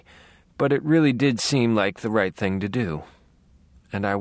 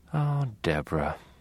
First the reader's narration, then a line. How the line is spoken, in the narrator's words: I sighed, a little louder this time, almost feeling it